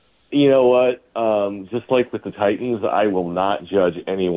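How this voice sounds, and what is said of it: Usual voice. Nothing is said of it.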